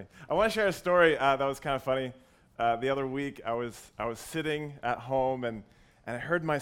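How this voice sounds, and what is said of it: Partly lost, hoarse squeaky voice. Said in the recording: “My voice is a little bit different. I lost my voice a little bit ... if I squeak”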